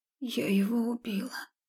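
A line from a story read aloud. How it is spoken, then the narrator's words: Quiet confession. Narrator (Russian): тихо созналась я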